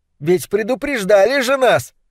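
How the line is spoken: Shouting. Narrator (Russian): кричала она

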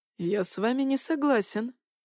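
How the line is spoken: Calm objection. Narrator (Russian): спокойно возразил

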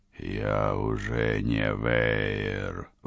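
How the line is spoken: Hissing. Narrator (Russian): прошипел тот

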